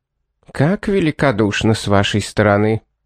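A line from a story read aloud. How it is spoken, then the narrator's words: Icy reply. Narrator (Russian): ледяным тоном ответила она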